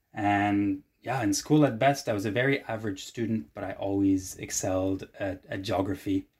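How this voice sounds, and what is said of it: Mixed, hard-to-place international accent. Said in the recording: “my confusing accent”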